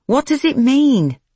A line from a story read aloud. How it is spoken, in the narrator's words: Nicky asked impatiently